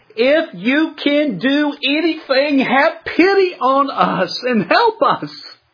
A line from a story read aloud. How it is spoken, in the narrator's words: The father, in desperation, just shouts out to the Lord